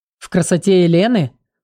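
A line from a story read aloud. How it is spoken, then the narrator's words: Short laugh. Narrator (Russian): коротко хохотнул Зак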